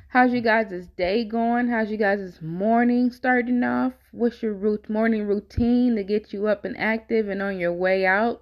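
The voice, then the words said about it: Slightly hoarse, tired voice. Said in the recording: “my voice sounds a little hoarse, ... it's because I'm tired”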